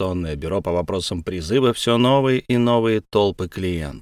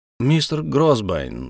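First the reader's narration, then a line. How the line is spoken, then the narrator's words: Thoughtful speech. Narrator (Russian): задумчиво заговорил Слейд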